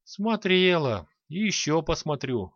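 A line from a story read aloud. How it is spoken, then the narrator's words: Sighing old woman. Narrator (Russian): вздохнула праматерь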